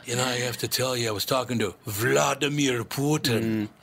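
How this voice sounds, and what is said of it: Imitates another person's voice. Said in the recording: “Let me say it like Steven Seagal ... He's working on his next movie accent”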